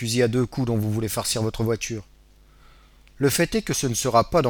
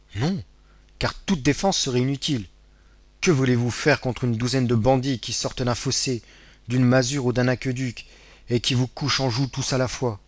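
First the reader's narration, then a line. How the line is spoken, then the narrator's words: Exclaiming. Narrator (French): s'écria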